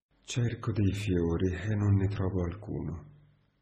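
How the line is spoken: Reply with deep sigh. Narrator (Italian): Mi rispose con un profondo sospiro

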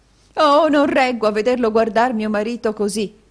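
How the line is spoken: Exclaimed. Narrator (Italian): esclamò la signora Kenwigs

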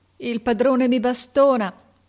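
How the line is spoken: Sobbing. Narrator (Italian): disse singhiozzando

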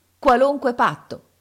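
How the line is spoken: Exasperated group shout. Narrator (Italian): urlammo noi, oramai esasperati dalla voglia di sapere

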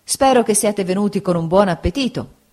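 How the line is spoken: Plain. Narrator (Italian): disse Steerforth

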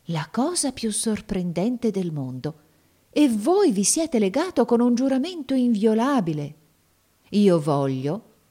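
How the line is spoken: Exclaimed. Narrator (Italian): esclamò

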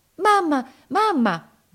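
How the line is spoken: Anxious shout. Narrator (Italian): gridò ansiosa

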